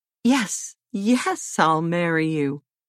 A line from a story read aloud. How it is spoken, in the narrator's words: Odette exclaimed without a pause